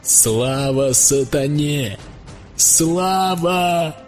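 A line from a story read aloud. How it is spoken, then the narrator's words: Loud chorus shouting. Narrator (Russian): громко кричал хор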